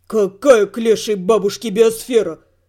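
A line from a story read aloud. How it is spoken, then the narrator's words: Drunk but coherent mutter. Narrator (Russian): пробурчал на редкость связно для пьяницы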